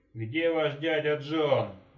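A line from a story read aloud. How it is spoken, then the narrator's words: Yell. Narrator (Russian): заорал он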